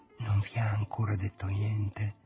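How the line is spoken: Hushed church-like whisper. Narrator (Italian): domandato bisbigliando, come si fa in chiesa

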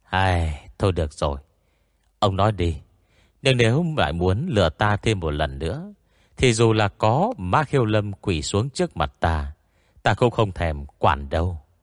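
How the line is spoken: Sighing, resigned. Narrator (Vietnamese): Tiêu Hòa Thượng lúc này mới thở dài

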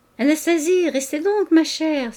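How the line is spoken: Irritable exclamation. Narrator (French): s'écria-t-il avec humeur

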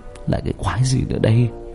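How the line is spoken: Whisper. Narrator (Vietnamese): Hào thì thầm

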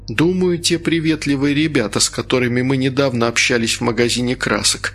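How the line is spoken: Sighing. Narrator (Russian): вздохнул Женя

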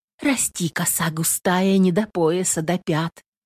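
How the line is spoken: Whispered. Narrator (Russian): шептала Нютка

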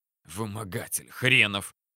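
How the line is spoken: Grumbling. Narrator (Russian): проворчал я

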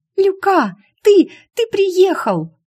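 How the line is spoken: Hoarse, choked with delight. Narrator (Russian): Шу не завизжала от восторга только потому, что голос внезапно сел

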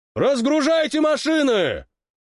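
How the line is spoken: Shout. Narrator (Russian): крикнул Толя

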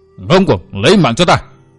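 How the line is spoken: Angry shout. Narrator (Vietnamese): Địch Hùng tức giận quát

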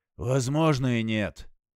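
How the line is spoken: Sighing. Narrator (Russian): вздохнул Тейлор

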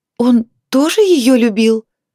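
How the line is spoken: Overwhelmed emotional exclamation. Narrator (Russian): воскликнула девушка, не в силах справиться с эмоциями

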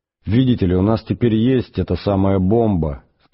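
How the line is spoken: Plain. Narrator (Russian): сказал он

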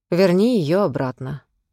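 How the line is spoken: Calm she-wolf voice. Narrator (Russian): спокойным голосом сказала волчица

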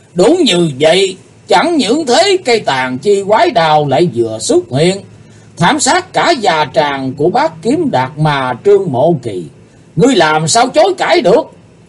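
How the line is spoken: Thunderous deafening laughter. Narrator (Vietnamese): Chí Tôn cười to hơn, giọng cười chấn động như xé tát cả màn tai của quần hùng có mặt tại tràng

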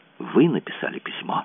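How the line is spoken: Whispered. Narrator (Russian): прошептала она

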